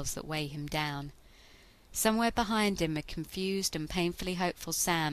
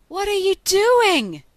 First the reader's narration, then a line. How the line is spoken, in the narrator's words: Sammy is screaming